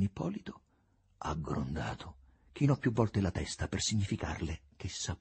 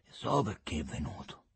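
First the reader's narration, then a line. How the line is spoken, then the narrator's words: Gloomy, dark voice. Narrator (Italian): aggiunse con voce cupa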